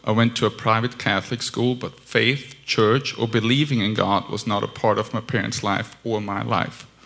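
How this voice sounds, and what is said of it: Austrian-accented English. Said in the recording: “raised in Vienna, Austria. That's where the weird accent comes from.”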